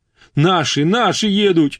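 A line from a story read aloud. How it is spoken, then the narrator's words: Joyful yell. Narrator (Russian): радостно завопил рязанец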